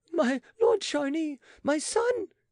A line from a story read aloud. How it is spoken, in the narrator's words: she shrieked